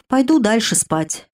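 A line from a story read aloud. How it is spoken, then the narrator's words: Sighing, yawning. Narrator (Russian): вздохнула я и даже зевнула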